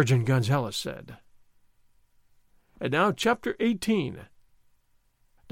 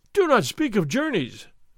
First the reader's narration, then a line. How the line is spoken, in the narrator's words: Don Diego cried